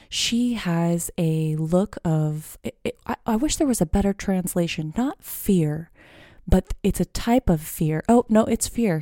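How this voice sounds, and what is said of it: Speaking quietly in a low voice. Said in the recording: “I am speaking in a low voice because my baby just went down for a nap ... I hope you guys find this soothing that I'm speaking in a low voice”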